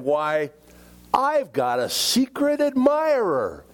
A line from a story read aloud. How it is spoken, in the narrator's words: exclaimed